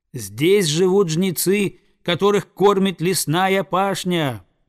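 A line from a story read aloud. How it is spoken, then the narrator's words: Eagle's loud cry. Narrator (Russian): прокричал орел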